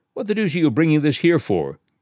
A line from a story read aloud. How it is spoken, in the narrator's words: he said sharply